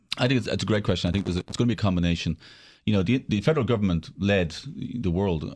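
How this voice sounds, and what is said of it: Non-American foreign accent. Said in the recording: “it's obvious from your accent you were born outside the United States”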